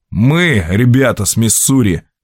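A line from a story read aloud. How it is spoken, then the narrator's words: Snorting. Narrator (Russian): хмыкнул Джо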